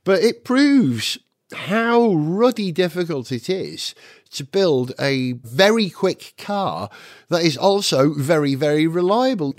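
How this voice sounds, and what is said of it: Congested, stuffy-sounding voice. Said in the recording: “Can you tell, by the way, I've got a sinus infection.”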